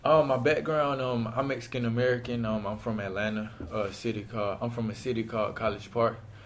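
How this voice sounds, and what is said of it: Southern accent with Spanish tinge. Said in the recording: “You have an interesting accent or way of speaking. ... that southern accent. ... It's a little Spanish.”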